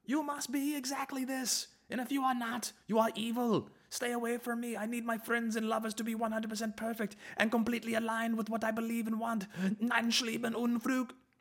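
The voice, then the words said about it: Screaming mock German dictator voice. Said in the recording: “screaming Nazi fucking Hitler impersonations”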